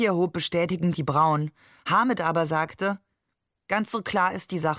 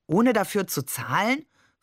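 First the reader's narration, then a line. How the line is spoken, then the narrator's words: Plain question. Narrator (German): fragte Barbe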